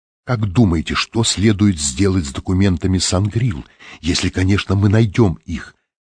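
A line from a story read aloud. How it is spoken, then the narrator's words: Whispered question. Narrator (Russian): спросила она шепотом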